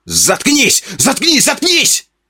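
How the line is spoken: Full-throated yell. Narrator (Russian): Во все горло заорал Тупой

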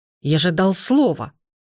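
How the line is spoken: Growl. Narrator (Russian): зарычал он

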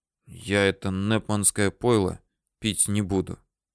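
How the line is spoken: Quiet. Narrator (Russian): сказал ей тихо

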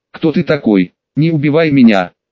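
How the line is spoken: Frightened young man's exclamation. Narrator (Russian): довольно испуганно воскликнул еще молодой мужчина

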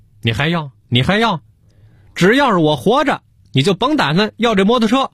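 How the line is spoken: Exasperated outburst. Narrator (Chinese): 给小何嚷嚷急了

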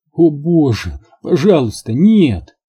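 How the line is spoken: Moaned. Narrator (Russian): простонала свернувшаяся калачиком Рут

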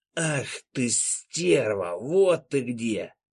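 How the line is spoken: Rough hiss over music. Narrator (Russian): Грубое шипение пробилось сквозь громкую музыку

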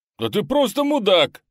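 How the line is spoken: Yelling. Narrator (Russian): заорал настоящий Санта

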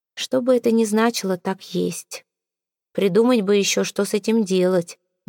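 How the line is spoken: Gloomy remark. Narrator (Russian): мрачно заметил Сезар

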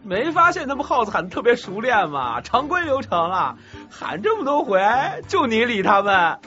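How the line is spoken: Breathless with laughter. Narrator (Chinese): 高天阳笑断了气，又诈尸过来说

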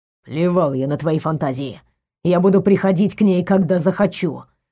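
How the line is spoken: Growled reply. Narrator (Russian): прорычал в ответ Эманор

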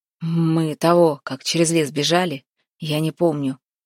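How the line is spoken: Hoarse narration. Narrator (Russian): сипло рассказывал Демка

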